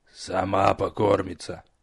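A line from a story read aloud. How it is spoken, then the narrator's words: Grumbling. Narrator (Russian): проворчала Горгулья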